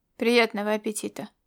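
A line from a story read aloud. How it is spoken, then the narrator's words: Grumbling. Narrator (Russian): буркнул он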